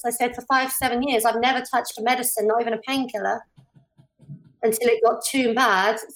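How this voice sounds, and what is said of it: British accent. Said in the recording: “I just like the way she says drug addicts ... The accent. I love it. It's just, I've always had a thing for the British accent.”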